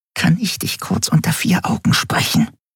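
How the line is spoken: Whisper through clenched teeth. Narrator (German): flüsterte sie mit zusammengebissenen Zähnen

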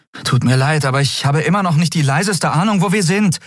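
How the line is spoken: Calling out. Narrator (German): rief sie Nelen zu

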